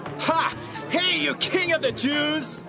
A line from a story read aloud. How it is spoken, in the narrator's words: They made fun of Jesus and shouted